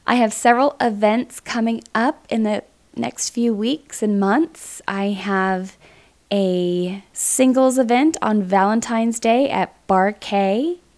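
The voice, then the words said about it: Voice slightly off from a cold. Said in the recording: “I still have the tail end of a cold, so forgive my voice for sounding a little off”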